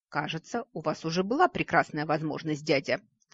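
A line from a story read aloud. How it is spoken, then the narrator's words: Sudden cold remark. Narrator (Russian): вдруг холодно обронил Нори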